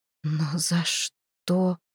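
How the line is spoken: Whisper. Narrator (Russian): прошептала я

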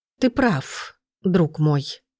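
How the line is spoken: Sighing. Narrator (Russian): вздохнул

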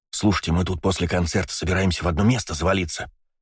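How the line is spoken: Conspiratorial tone. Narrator (Russian): заговорщическим тоном сказал Костян

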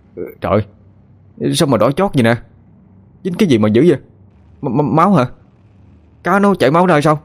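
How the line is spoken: Shouted. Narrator (Vietnamese): Nó la lên

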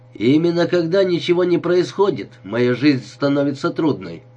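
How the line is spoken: Snapping retort. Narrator (Russian): огрызнулся Джек

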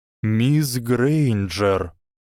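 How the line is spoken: Soft, tired call. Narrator (Russian): позвал директор мягким, а может, просто уставшим голосом

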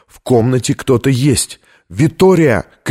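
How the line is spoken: Uncontrolled shout. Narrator (Russian): крикнул он, будучи не в силах сдержаться

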